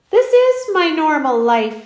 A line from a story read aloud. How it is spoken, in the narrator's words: Nim shouted